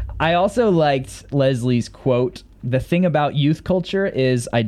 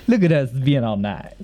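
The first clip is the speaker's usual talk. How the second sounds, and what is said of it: Put-on accent. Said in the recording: “With that accent.”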